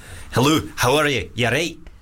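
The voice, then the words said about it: Put-on Scottish accent. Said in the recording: “Okay. Scottish. ... It's not bad, right? That was okay.”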